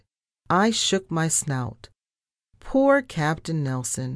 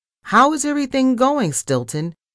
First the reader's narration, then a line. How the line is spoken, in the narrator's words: he barked loudly